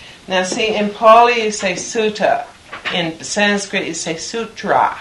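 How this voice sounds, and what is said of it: Usual voice. Nothing is said of it.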